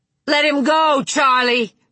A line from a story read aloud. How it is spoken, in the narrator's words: she shouted